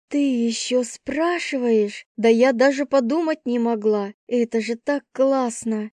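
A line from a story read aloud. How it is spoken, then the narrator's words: Breathless exhale. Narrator (Russian): Я выдохнула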